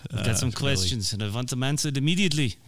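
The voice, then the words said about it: Mock German Nazi villain accent. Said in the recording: “What accent was that? Were you trying to do like the Boris Germans. And Natasha?... the going Germans. Nazi.”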